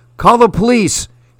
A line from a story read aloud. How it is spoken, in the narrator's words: she screamed at her father